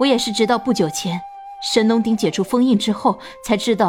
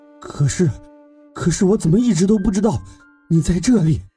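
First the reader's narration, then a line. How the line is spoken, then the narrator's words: Excited, trembling voice. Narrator (Chinese): 智罗激动的 声音颤抖着问道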